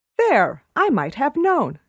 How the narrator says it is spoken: she exclaimed

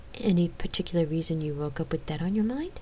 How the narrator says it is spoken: she asked

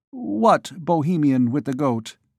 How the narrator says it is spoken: stammered

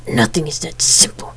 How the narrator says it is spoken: he hissed

